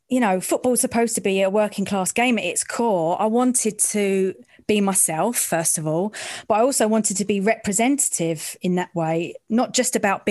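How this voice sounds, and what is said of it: East End London accent. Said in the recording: “my accent, my voice. I'm from the East End”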